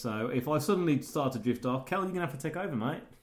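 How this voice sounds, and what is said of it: Voice affected by a cold. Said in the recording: “I have a cold. And it tends to affect my voice a little bit.”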